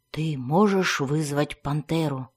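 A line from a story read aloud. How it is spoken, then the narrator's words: Barely audible question. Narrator (Russian): чуть слышно спросил хранитель туннелей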